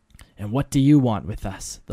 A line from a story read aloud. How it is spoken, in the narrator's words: the voices unified sharply